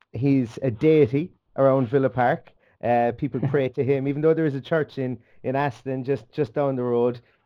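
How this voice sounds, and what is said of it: Irish accent. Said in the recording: “you'll notice that the accent is Irish”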